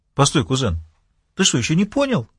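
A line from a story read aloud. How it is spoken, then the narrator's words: Shocked exclamation. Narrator (Russian): воскликнул потрясенный Чарльз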